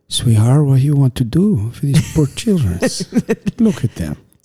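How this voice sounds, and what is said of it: Dramatic imitation of another person's accent. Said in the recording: “that's not like my accent... It's not, but it sounds so good... Very dramatic”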